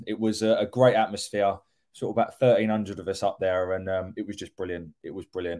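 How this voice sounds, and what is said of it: Hoarse, worn-out voice. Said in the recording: “I've come back and my voice is gone.”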